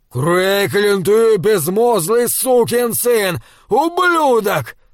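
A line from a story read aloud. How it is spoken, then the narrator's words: Screaming. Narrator (Russian): вопил Лам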